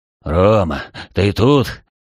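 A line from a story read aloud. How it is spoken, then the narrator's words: Relieved hoarse croak. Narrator (Russian): С облегчением прохрипел человек с зеленым лицом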